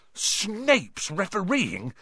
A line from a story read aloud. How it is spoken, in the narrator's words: he spluttered through a mouthful of mud